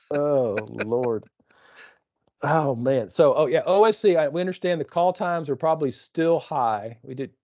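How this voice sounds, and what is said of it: East Texas accent. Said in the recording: “You making fun of my accent again? ... Well, you are East Texan after all.”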